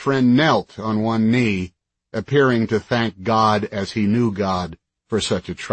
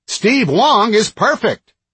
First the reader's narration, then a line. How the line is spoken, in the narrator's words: the host was yelling into his headset